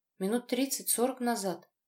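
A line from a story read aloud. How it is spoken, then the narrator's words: Quiet answer. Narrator (Russian): тихо ответила она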